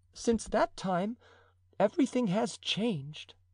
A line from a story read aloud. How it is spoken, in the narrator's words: said Madame de Chevreuse, with a slight sigh